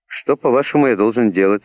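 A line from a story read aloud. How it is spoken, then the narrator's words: Plain. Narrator (Russian): спросил капитан Баннерман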